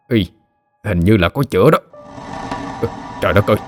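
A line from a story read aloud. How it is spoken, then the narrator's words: Man muttering. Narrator (Vietnamese): Người đàn ông ... lẩm bẩm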